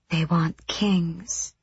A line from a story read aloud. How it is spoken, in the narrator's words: Kaltain breathed, with some strange, sick delight